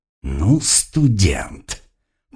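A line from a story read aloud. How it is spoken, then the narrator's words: Angry growl. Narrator (Russian): не скрывая злобы, прорычал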